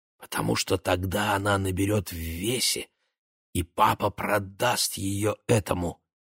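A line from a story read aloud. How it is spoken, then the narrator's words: Quiet whisper. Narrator (Russian): шепнула Номи тихо, чтобы отец и Глоберман не услышали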